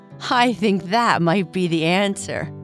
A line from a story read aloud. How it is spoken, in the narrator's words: Boo Boo said, laughing